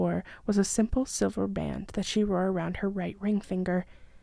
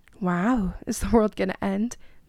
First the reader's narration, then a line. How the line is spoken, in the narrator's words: Mia laughed